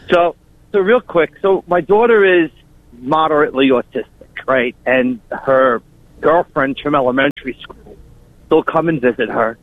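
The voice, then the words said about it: Long Island accent. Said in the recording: “We recognize that Long Island-ass accent.”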